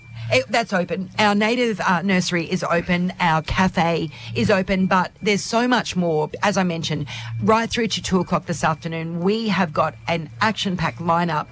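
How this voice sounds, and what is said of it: Husky, raspy voice. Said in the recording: “do you like my husky voice? ... It's a bit raspy”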